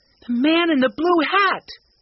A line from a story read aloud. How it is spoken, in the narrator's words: cried Mike